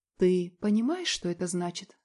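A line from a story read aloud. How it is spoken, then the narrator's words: Calm but trembling voice. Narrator (Russian): спрашиваю спокойно, но голос дрожит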